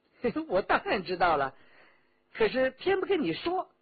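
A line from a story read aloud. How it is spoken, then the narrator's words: Laughing. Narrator (Chinese): 李元直笑道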